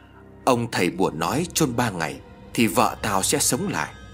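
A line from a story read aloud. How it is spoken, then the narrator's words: Muttering to himself. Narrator (Vietnamese): Gã miệng lẩm bẩm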